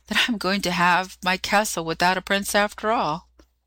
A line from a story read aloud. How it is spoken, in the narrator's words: she added, sighing